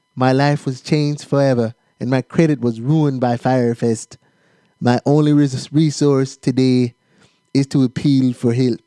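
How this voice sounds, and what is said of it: Attempted Bahamian accent, sounds Austrian. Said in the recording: “Does that sound like a Bahamian accent? ... No, I don't know what that sound like. Sick Arnold Schwarzenegger.”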